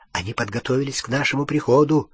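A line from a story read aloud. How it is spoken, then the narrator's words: Whisper. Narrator (Russian): прошептал Гарри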